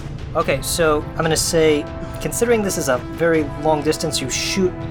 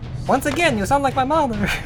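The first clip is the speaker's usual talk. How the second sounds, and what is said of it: Yiddish-sounding female character voice. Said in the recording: “I love this voice. ... female characters that I voice exclusively. ... Yiddish-sounding woman.”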